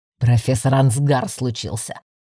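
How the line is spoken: Growl. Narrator (Russian): Рыкнул блондин

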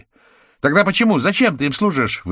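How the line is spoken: Shouting. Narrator (Russian): выкрикнула Белицкая

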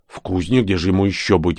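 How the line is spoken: Warrior grumbling. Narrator (Russian): буркнул воин

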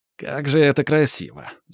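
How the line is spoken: Snide. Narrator (Russian): ехидно замечает Клякс

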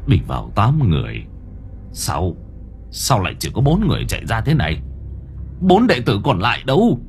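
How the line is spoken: Muttering. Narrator (Vietnamese): Bá quân trưởng môn lẩm bẩm

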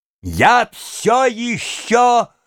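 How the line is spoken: Greatly vexed exclamation. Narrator (Russian): воскликнул князь с величайшей досадой

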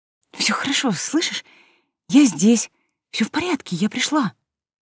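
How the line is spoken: Dazed whisper. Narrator (Russian): шептала она, сама не понимая, что говорит

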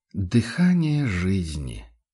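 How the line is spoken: Blissful drawl. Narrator (Russian): блаженно протянул заботливый владелец уникальной кобылы

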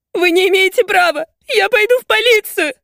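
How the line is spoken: Shouting while sobbing. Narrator (Russian): кричит, рыдая

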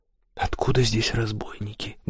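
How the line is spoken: Mumbling. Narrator (Russian): бормотал Кристофер

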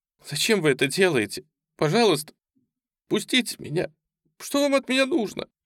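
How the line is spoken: Sobbing. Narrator (Russian): всхлипывала она

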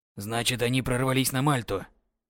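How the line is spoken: Calm. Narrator (Russian): уже спокойно произнес Людовик

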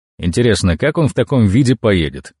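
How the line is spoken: Snort. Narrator (Russian): хмыкнул я

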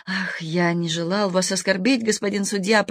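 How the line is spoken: Sad. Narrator (Russian): произнес грустно

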